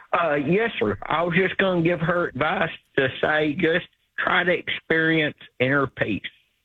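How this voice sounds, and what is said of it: Southern Alabama accent. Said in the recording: “Is that a real accent? ... I'm from Alabama.”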